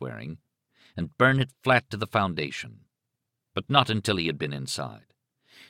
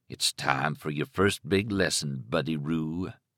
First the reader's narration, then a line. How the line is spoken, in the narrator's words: Stark murmured